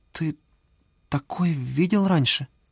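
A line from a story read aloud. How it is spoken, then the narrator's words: Stammering, forced out. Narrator (Russian): запинаясь, выдавила Оксана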